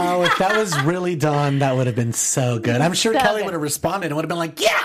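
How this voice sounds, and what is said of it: Usual voice. Nothing is said of it.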